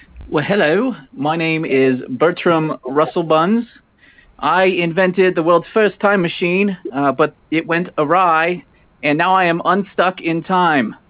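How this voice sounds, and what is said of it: Wavering put-on British accent. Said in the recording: “That's an interesting accent ... originally, I'm from Great Britain ... it sounds like your accent is unstuck in time”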